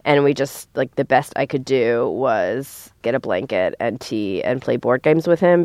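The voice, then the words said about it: Sick-sounding voice. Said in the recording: “everyone in my house is sick, which we will be for the next, you know, several months, including me. You can tell by my voice.”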